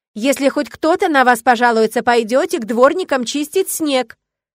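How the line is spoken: Shout after someone. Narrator (Russian): крикнула им вслед

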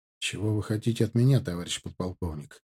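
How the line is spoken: Cool questioning tone. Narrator (Russian): холодноватым тоном спросил я

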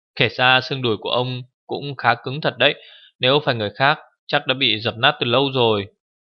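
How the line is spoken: Laughing, teasing. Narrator (Vietnamese): Thượng Quan Linh thấy lão như vậy, bật cười nói

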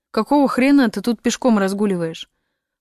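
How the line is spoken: Grumble. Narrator (Russian): проворчал он

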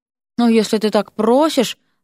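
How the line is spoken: Deeply offended voice. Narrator (Russian): самым оскорбленным голосом, на какой был способен, отозвался Ипполит

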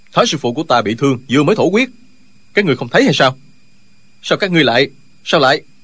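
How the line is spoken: Worried angry shout. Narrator (Vietnamese): Tri khách đạo sĩ của phái Võ Đan là Linh Hư từ đầu vẫn lo lắng cho thương thế của thái sư phụ, lúc này không còn nhịn nổi nữa, quát lên

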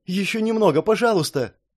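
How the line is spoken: Tearful pleading. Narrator (Russian): взмолилась она, размазывая по лицу слезы

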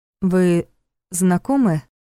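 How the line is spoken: Confused question in Russian. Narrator (Russian): по-русски растерянно спросила она

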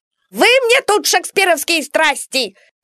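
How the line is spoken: Shrill shout. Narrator (Russian): визгливо закричал доктор

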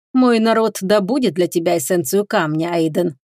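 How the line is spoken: Plain. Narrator (Russian): сказала шаманка

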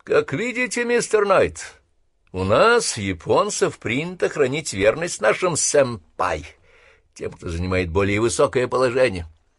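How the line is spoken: Mocking. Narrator (Russian): насмешливо произнес Ватанабе

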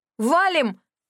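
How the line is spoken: Shouting in unison. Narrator (Russian): Заорали мы с Рэнди в один голос

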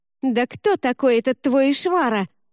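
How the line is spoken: Screaming. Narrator (Russian): завопила

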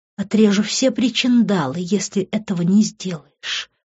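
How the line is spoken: Whisper. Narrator (Russian): прошептала она

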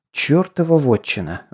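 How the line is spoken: Silent inner mutter. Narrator (Russian): мысленно пробормотал Константин

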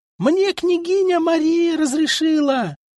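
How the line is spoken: Screaming at full voice. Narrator (Russian): Завопила во все горло Юлдуз

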